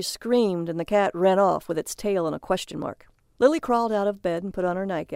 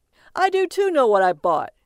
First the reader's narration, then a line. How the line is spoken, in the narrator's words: called out